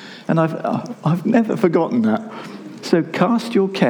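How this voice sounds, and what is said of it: Usual voice. Nothing is said of it.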